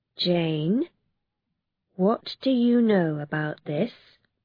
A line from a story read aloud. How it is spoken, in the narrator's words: she said slowly